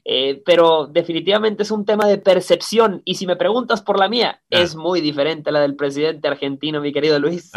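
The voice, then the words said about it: Sing-song Monterrey regio Mexican accent. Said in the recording (Spanish): “ese acento, ¿cómo llaman el acento en Monterrey? ... es el acento regio ... Es el acento cantado.”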